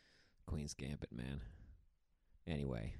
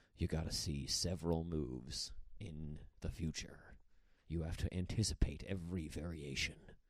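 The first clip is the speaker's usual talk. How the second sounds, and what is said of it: Very serious dramatic voice. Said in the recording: “Just like a very serious voice.”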